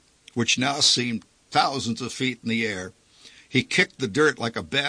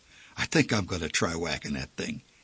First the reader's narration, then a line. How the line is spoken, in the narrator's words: he whispered